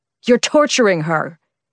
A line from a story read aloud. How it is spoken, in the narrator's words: Kane roared at someone